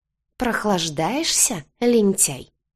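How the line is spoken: Hissed. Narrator (Russian): зашипела верховная жрица

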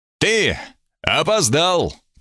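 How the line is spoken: Triumphant shout. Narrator (Russian): прокричал он торжествующе

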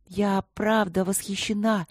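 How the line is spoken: Forced, strained. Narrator (Russian): выдавила из себя Эбби

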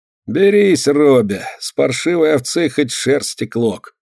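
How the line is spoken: Sighing speech. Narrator (Russian): Вздохнув, говорит один

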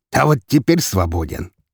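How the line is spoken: Smug snort. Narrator (Russian): с довольной рожей хмыкнул Игнатов

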